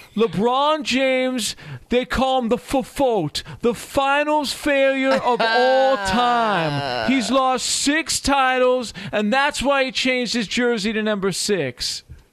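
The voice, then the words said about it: Impression of Rob Parker. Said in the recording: “do the impression. If you're gonna quote Rob Parker, you have to do your Rob Parker impression. ... Well done. Well done.”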